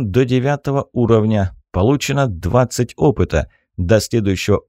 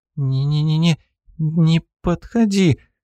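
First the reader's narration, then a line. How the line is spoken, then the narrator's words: Strained frightened stammer. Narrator (Russian): С трудом выдавила она из себя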